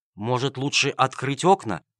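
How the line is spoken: Timid question. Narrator (Russian): робко спросил Джельсомино

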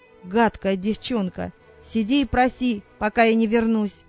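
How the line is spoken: Growl. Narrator (Russian): прорычав

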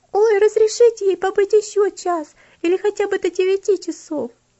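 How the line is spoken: Several voices pleading. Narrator (Russian): несколько голосов вдруг взмолилась

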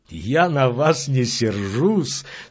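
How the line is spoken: Laughing. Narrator (Russian): смеялся

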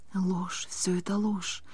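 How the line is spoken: Whisper to herself. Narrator (Russian): прошептала про себя Тифам

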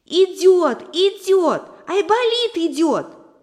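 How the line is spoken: Shouting, squirrel. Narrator (Russian): закричала Белочка

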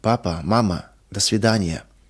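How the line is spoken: Sudden breathless exhale. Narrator (Russian): Вдруг выдохнула она

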